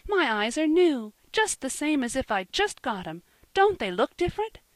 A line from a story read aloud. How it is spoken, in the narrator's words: she asked earnestly